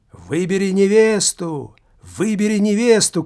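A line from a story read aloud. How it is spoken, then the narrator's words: Crowd shouting. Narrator (Russian): кричали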